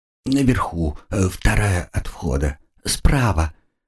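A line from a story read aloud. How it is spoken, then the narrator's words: Obsequious tone. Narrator (Russian): подобострастным тоном ответил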